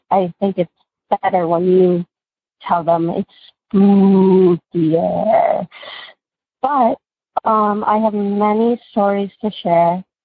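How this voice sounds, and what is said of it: Congested, sick-sounding voice. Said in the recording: “I have a cold right now”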